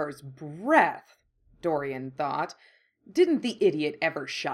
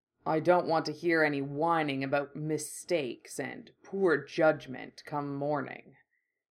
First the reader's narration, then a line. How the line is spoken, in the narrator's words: the bull rumbled